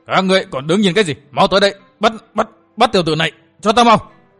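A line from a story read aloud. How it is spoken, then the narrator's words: Roaring. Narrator (Vietnamese): Nam Cương công tử gầm lên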